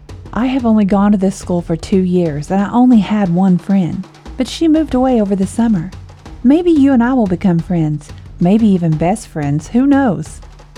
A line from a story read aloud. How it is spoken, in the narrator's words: she said with a laugh